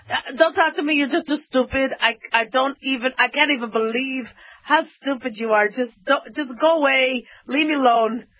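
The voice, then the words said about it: Imitating father's accented voice. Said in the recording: “He had this accent.”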